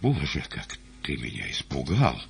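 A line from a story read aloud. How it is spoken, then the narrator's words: Quiet ingratiating tone. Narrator (Russian): как бы заискивающей улыбкой, и тихо молвил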